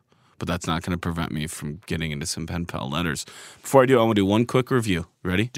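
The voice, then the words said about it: Voice slightly off from a cold. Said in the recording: “my voice may sound a little off. I have a bit of a cold,”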